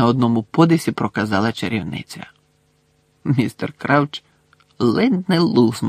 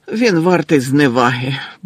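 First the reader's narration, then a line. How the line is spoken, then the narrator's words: Grumbled. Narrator (Ukrainian): буркнув містер Крауч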